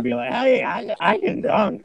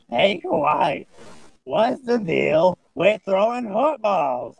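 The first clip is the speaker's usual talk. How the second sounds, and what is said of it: Imitates another person's weird voice. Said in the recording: “That's how he sounds, right? ... he has a weird voice.”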